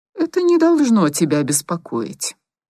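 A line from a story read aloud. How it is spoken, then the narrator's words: Even, level voice. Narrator (Russian): ровным голосом ответил Валерий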